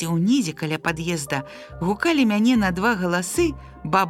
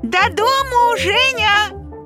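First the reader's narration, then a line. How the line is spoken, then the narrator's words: Shouting. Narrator (Belarusian): крычала Марына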